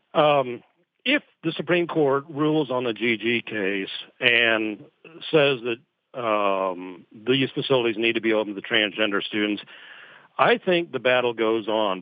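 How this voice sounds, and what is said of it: Scottish accent. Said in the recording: “That's my Scottish accent, I guess, getting in the way of my pronunciations.”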